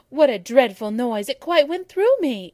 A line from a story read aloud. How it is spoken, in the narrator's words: exclaimed Abbott